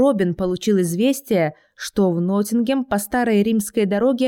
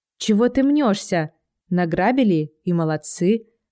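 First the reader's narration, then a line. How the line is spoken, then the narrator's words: Calm. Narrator (Russian): спокойно сказала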